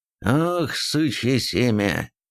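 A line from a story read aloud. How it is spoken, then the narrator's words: Through gritted teeth. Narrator (Russian): процедил Хумул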